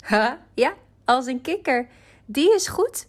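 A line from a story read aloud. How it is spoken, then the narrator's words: Giggling. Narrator (Dutch): giechelde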